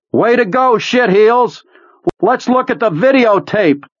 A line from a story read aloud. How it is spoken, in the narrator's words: he cupped them around his mouth and yelled